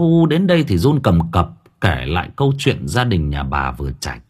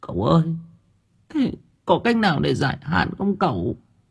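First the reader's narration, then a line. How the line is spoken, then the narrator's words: Tearful, whimpering woman. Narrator (Vietnamese): bà mếu máo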